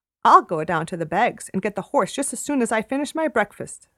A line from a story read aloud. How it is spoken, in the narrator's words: said I